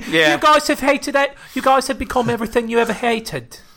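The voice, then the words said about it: Put-on British accent impression. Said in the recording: “But in a British accent ... is that a good British accent? ... Are you doing Michael Caine?”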